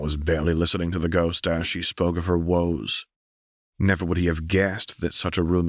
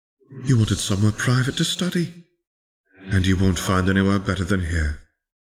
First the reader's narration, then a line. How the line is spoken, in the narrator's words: Helena sighed